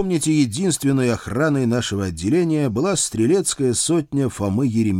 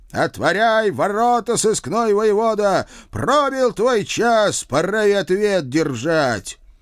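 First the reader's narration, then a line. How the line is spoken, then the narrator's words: Loud shout. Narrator (Russian): Глава думцев, гражданин Бодров, громко крикнул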